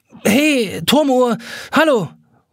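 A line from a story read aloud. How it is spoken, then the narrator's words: Calling across the water. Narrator (German): ruft übers Wasser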